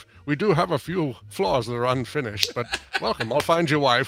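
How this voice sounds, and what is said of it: Sean Connery doing light American accent. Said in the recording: “he sounds like Sean Connery ... it's Sean Connery trying to do a light American accent. ... It's Rising Sun Sean Connery.”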